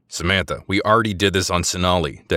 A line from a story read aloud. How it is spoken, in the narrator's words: Decker growled